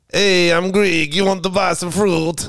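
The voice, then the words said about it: Cheesy put-on Greek-Italian accent. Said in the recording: “What's his accent? ... That was a accent. ... Bit Italian, but I like it.”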